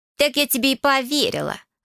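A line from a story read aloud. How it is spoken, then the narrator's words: Snapping. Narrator (Russian): огрызнулась та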